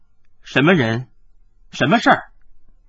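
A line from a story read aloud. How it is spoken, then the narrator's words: Cold, stern. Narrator (Chinese): 他面色一沉，冷冷的说道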